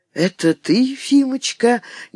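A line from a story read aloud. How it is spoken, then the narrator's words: Tender, chesty, wheezy voice. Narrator (Russian): нежным грудным голосом, в котором слышалась хрипота пораженных легких, заговорил он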